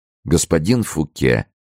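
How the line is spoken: Sad, smiling. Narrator (Russian): промолвил, грустно улыбаясь, Филипп

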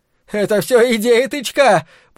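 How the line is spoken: Shouting. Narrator (Russian): прокричал он

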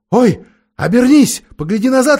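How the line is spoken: Exclaiming. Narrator (Russian): воскликнула Полли

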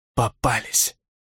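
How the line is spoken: Defiant whisper. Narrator (Russian): с вызовом прошептала она

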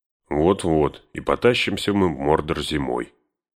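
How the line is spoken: Gloomy disapproving grumble. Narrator (Russian): с мрачным неодобрением пробурчал Сэм

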